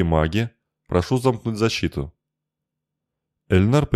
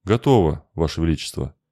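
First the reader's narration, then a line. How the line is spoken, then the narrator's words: Quiet. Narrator (Russian): негромко сказал Эльнар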